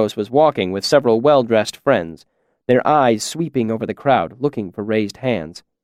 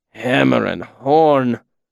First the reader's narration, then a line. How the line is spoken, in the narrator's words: Will said wearily behind me